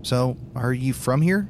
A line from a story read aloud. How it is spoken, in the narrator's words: he asks